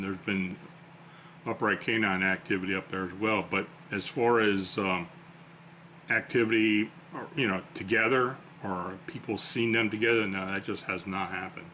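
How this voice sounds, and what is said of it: Weak, tired voice. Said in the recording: “As you can probably tell, my voice is getting a little weak.”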